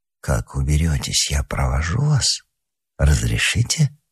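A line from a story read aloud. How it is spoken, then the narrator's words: Quiet conspiratorial voice. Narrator (Russian): Лыбарзин тихим заговорщицким голосом произнес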